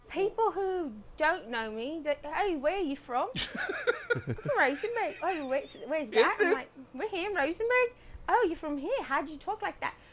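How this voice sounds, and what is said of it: British-sounding accent. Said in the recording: “Don't let the queen's tongue fool you. ... how my mom got that accent”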